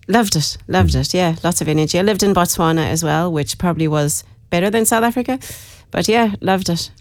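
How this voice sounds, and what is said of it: Irish speaker with South African accent. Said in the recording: “I'm originally from Dublin. Lived in South Africa for a long time, hence the accent. ... You got the accent”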